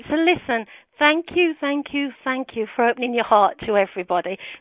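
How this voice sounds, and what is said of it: Birmingham English accent. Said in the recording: “Birmingham is my hometown, as you know, and everybody laughs at my accent, but I'm very proud of it.”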